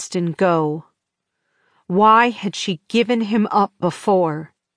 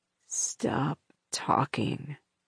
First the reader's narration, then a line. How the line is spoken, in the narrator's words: he mumbled